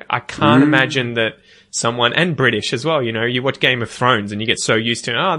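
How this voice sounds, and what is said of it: Mild Australian accent. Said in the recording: “I've spoken to people from the US in my accent, just like this, and they'll be like, I don't understand you... I don't think I've got a strong accent. It's different, but it's not like, you know, Scottish or, you know, Southern Texan”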